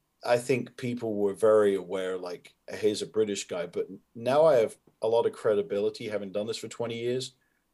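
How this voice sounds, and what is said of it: Softened hybrid British accent. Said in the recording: “my accent was a lot more pronounced than it is now, where it's kind of this hybrid softened accent”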